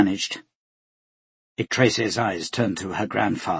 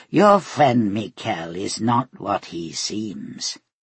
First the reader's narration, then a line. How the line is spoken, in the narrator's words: Sedil purred